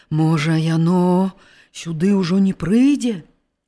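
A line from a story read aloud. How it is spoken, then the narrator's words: Trembling young voice. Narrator (Belarusian): спытаўся дрыжачым голасам малады пастух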